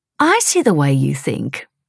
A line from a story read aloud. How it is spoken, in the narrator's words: said the wife teasingly